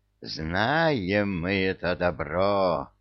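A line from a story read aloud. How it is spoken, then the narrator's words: Fierce growl. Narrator (Russian): Свирепо рычала Василиса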